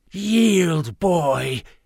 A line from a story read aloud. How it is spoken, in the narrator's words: rasped